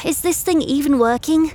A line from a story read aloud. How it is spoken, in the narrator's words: He groans, pouting